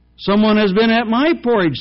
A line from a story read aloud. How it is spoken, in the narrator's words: said middle-sized bear in her middle voice